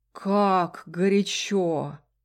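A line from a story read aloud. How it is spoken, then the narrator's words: Drawn out. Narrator (Russian): протянул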